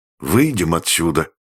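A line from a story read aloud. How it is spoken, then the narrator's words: Dejected voice. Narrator (Russian): упавшим голосом сказал Корюшкин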